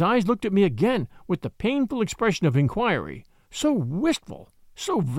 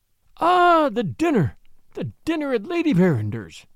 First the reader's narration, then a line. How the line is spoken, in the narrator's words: exclaimed, more eagerly than ever